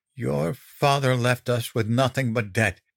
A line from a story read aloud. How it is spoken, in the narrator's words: she panted